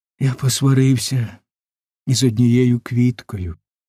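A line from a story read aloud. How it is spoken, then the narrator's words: Little prince sighing. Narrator (Ukrainian): зітхнув маленький принц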